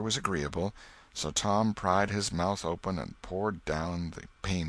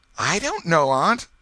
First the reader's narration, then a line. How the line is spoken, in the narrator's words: gasped the boy